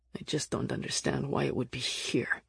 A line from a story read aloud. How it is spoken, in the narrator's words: Nick grumbled